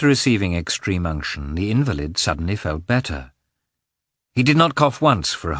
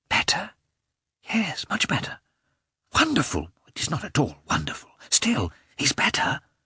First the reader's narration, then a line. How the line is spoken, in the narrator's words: they said in whispers, smiling at one another